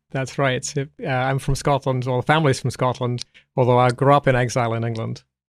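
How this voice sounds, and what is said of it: English accent with American tinge. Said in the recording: “you don't actually have a Scottish accent. You sound English and sort of with an American brogue ... there's a bit of a South London there ... people say, oh, you sound very American”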